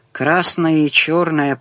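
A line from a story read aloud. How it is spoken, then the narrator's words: Grumbling. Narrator (Russian): проворчал он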